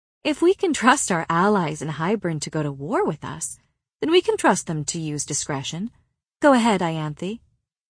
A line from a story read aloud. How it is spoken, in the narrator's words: I was cruel enough to say sweetly